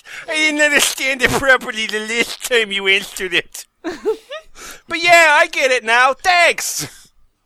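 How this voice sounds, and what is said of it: Inconsistent put-on accent. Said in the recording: “my accent's going all over the place”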